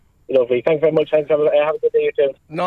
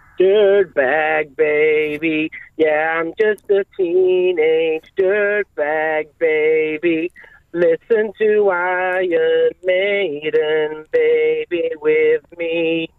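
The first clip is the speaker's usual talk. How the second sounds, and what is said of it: Singing in a put-on American accent. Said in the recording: “you even did a little American accent”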